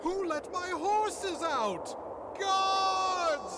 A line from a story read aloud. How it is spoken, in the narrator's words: you hear off in the distance someone yell